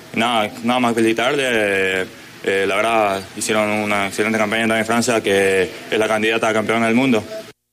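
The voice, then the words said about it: Paraguayan Spanish accent. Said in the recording (Spanish): “Qué locura el acento paraguayo”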